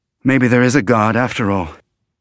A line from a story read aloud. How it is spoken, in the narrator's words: he said in a shaky voice